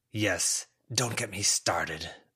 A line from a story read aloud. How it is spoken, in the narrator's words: the mouse rasped